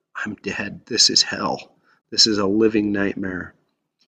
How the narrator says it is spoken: He was the person whose pain is so deep that they can hardly whisper

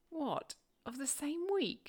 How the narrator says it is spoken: She exclaimed

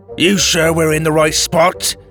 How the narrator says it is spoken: Drake spat, glaring

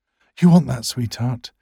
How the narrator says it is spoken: he gasps between thrusts

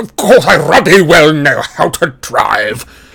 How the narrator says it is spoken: spluttered Uncle Vernon

